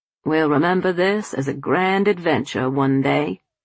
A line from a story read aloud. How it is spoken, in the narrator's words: he said